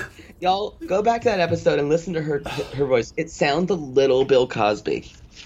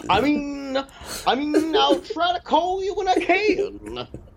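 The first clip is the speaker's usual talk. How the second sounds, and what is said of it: Bad Bill Cosby impression. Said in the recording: “worst Bill Cosby impression I've ever heard of in my life”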